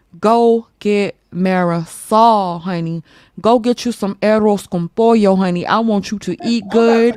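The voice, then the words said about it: Put-on Spanish accent. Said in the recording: “You you ain't like my Spanish accent?”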